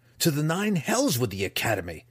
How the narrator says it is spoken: Drizzt spat

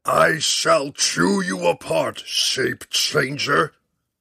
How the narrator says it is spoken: The dragon bellowed

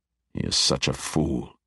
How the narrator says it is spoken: the Archmage muttered under his breath

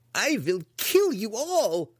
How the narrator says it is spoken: cried the unseen wizard

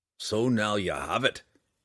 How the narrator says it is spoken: Bruner said to her roughly

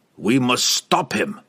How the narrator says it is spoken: he snarled at Laval

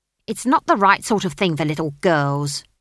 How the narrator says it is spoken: snapped the barman's wife

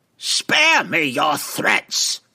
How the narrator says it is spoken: Benray screamed, her thin neck seeming even scrawnier with her jaws so tightened and jutting forward

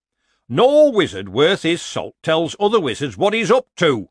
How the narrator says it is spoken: snapped the lecturer

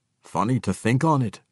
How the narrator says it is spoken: Brunner said dryly

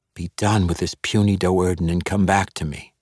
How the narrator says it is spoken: she whispered again

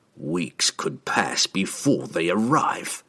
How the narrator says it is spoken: Trevi spat

